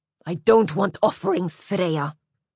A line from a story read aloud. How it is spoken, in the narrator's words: he snarled